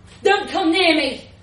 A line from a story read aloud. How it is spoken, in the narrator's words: John bellowed at the policeman, the wind almost whipping his words away